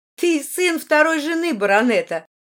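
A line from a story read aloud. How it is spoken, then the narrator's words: Sarcastic remark. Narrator (Russian): язвительно заметила Маргарита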